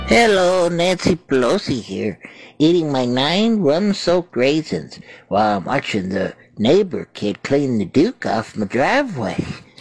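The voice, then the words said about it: Imitates another person's voice. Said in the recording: “Celebrity voices impersonated.”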